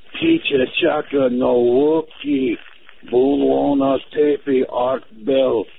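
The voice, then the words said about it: Gravelly alien creature voice. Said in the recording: “That sounds like a Native American Santa. ... my Jabba the Hutt impersonation”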